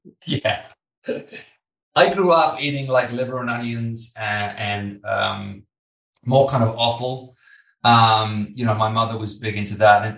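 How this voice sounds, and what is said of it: British accent. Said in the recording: “I'm British, as you can probably tell from my accent.”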